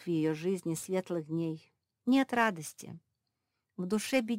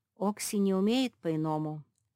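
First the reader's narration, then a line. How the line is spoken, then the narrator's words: Sad. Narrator (Russian): печально произнес Марк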